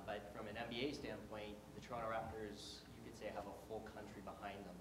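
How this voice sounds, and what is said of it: Canadian accent. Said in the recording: “You heard the Canadian accent”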